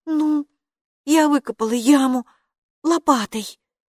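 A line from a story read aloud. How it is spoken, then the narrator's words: Uncertain. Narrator (Russian): неуверенно проговорила она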